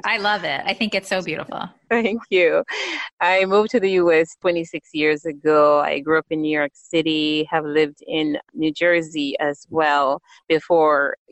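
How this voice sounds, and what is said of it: Jamaican accent. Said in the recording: “I was born on the beautiful island of Jamaica, the West Indies. And so, I definitely, you can hear my accent, I have been fortunate enough to be able to retain my beautiful accent.”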